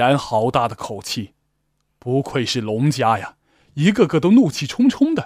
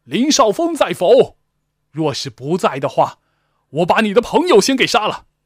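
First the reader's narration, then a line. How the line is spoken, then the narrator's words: Shouting again. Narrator (Chinese): 那领头的再度喊道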